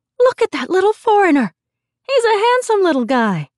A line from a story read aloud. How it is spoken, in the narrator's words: Old Chinese men and young professional women alike would stare down at him, exclaiming